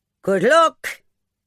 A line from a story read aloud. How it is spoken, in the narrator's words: Miss O'Donnell shouted